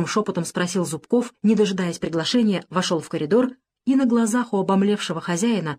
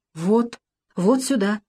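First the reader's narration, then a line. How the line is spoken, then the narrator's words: Excited stammering. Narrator (Russian): заикаясь от волнения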